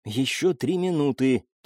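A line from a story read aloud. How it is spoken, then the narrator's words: Breathless whisper. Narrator (Russian): тяжело дыша прошептала Элина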